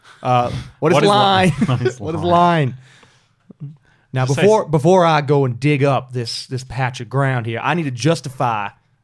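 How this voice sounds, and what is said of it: Impression of Lieutenant Push. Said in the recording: “that was a superb impression of ... Lieutenant Push. ... You do a good Push. ... How much of that is McConaughey from True Detective? ... not a heap of McConaughey.”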